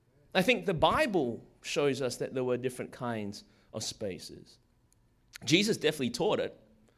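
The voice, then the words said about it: Strong accent, hard to follow. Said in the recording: “I know a lot of you guys are finding it hard to follow along with this accent right now”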